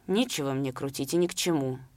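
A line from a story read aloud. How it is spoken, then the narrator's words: Muffled, dull reply. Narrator (Russian): глухо отозвался Островнов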